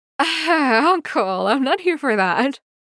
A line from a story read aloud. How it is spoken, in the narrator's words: Wei Wuxian laughs